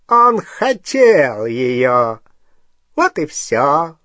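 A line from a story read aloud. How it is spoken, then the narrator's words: Mocking. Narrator (Russian): насмешливо сказал Волан-де-Морт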